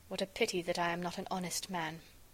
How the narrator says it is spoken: I muttered

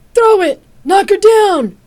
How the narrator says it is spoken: the voice above her shouted

